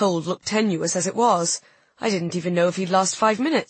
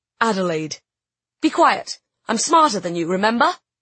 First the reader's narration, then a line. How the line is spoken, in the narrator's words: My tone was harsh, but it was only to cover my own fear